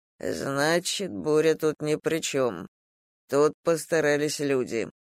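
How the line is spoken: Grumbled. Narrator (Russian): проворчал Фальк

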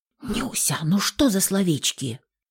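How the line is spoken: Indignant whisper. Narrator (Russian): Возмутилась все так же шепотом

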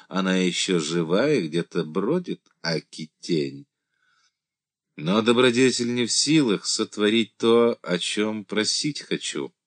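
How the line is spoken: Sighing. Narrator (Russian): вздохнул князь Игорь

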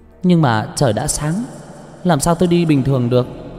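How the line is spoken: Loud laughter. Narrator (Vietnamese): Cờ Nơ cười lớn

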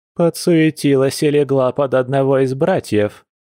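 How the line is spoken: Mocking snort. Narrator (Russian): насмешливо хмыкнула Марианна

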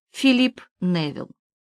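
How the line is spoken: Calm. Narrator (Russian): спокойно добавил

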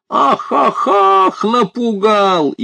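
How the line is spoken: Hysterical woman's laughter. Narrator (Russian): истерично захохотала блондинка

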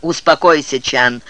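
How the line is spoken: Grumbled. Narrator (Russian): пробурчал Верзила

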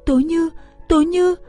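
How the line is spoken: Panicked cries. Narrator (Vietnamese): Cả hai người hốt hoảng kêu lên

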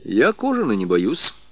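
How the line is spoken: Calm reply. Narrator (Russian): спокойно ответил Крачунский

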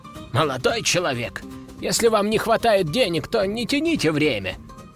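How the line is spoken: Indignant muttering. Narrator (Russian): возмущенно пробурчал коллекционер

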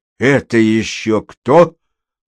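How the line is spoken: Startled shout. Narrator (Russian): крикнула она

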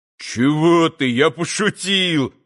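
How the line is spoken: Sharp cry. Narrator (Russian): вскрикнул Митя

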